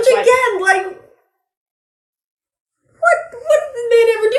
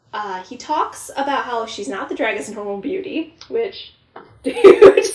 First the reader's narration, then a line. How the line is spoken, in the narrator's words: I laughed